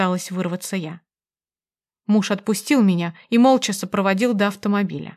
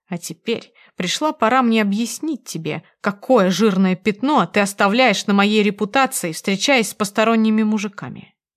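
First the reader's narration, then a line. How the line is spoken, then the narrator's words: Husband growling. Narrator (Russian): прорычал муж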